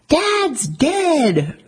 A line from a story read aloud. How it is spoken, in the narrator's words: Jackie, informing relatives by phone that her father had died, winds up screaming